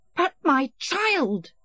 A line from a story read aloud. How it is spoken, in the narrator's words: shrieked